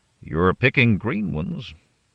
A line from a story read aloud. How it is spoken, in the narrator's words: Redstone Man said